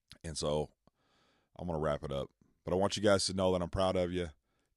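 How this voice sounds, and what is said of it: Slightly hoarse voice. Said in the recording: “I'm not feeling great. So my throat hurts a little bit. You can tell I'm a little more hoarse.”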